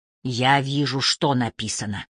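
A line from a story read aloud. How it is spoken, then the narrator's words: Gentle reply. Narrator (Russian): мягко отвечает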